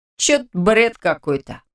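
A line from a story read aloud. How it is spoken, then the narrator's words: Smirking snort. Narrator (Russian): хмыкнул рядом Радик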